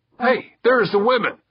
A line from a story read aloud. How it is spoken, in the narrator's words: one of his crew called out